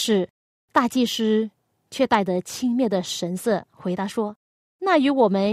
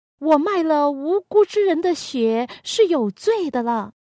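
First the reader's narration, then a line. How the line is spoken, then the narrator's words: Loud. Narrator (Chinese): 犹大又大声的说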